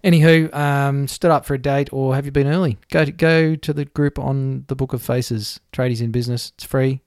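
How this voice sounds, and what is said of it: Radio presenter voice. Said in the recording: “I've got my radio voice on again, don't I?”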